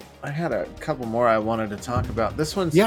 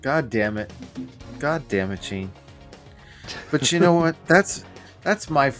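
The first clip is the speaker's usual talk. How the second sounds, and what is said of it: Resigned, defeated tone. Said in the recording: “You can hear the resignation in my voice,”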